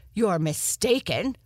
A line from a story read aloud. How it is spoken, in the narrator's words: Leaper the Lotus snapped